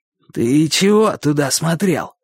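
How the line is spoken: Slightly hoarse question. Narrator (Russian): спросил он не так уж хрипло, как раньше

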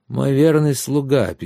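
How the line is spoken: Sad reply. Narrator (Russian): печально ответил сэр Гирон

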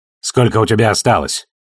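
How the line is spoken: Curt question. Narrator (Russian): отрывисто спросил Ашфорд

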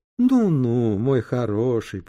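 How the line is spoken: Knowing drawl. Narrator (Russian): понимающе протянула она

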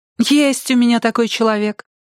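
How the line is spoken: Exclaimed. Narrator (Russian): воскликнула Салли

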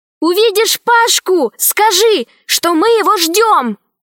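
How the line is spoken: Shouted after. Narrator (Russian): крикнула вслед Алиса

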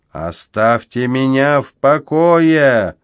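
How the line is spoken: Roar. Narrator (Russian): взревел он снова

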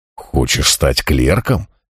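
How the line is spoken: Incredulous question. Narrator (Russian): недоверчивым тоном переспросил я

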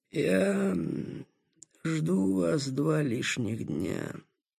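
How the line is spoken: Displeased hoarse booming voice. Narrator (Russian): сказал недовольно хриплым, раскатистым голосом

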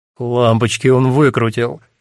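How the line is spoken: Groaning through laughter. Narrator (Russian): сквозь смех стонет Стефан

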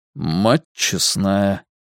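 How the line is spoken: Muttered. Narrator (Russian): пробормотал Ральф

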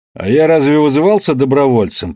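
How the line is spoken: Grumbling swan. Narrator (Russian): пробурчал лебедь

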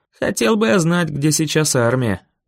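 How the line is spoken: Grumbling. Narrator (Russian): проворчал я

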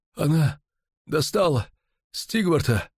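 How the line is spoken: Strained breathless exhale. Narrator (Russian): выдохнул он, с трудом поднимаясь

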